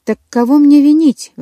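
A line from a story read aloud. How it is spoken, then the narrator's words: Exclamation. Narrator (Russian): воскликнула я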